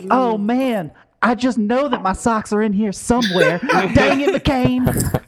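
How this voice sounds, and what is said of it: Imitates another person's voice. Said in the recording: “A really good Lindsey Graham impression. ... That was pretty good.”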